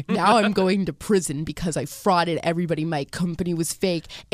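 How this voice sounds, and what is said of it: Deep put-on man-like voice. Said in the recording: “She literally talks like this... I did this voice because I thought that if I talk like a man... you're really creeping me out... That was the perfect impression!”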